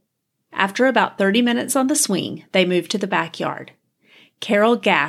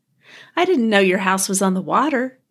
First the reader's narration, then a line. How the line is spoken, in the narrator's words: she laughed